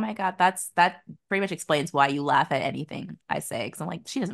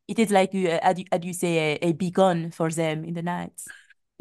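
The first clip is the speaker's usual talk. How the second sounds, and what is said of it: Fake French accent. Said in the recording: “I could believe that you're French ... I can't tell the difference between a real and a fake accent. If it's like done remotely well”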